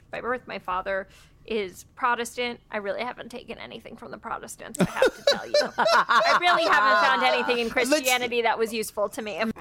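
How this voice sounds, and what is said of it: Heavy vocal fry throughout. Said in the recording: “vocal fry ... this was two full sentences in that weird register”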